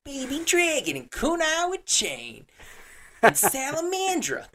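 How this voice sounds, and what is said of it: Weird New York accent. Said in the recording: “He had like this weird like New York accent”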